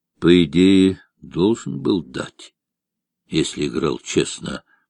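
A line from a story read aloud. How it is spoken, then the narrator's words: Quiet. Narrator (Russian): негромко проговорил Петр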